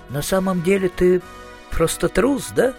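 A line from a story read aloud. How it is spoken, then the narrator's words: Sighing. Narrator (Russian): вздохнул Маркоу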